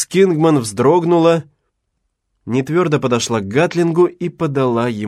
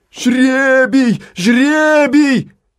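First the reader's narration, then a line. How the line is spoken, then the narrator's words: Crowd shouting. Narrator (Russian): закричала толпа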